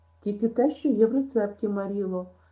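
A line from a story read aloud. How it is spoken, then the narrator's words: Anguished exclamation. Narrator (Ukrainian): страдницьке вигукнула Ен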